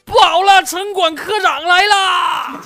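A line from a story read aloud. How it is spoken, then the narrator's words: Shouting while running. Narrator (Chinese): 一边跑一边喊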